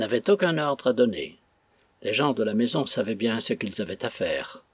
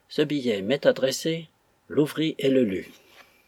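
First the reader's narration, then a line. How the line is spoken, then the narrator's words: Calm tone. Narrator (French): dit d'un ton calme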